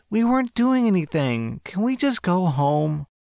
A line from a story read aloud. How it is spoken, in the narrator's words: the girl pleads